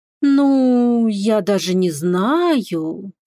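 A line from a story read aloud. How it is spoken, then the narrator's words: Drawn-out, thoughtful. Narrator (Russian): протянула задумчиво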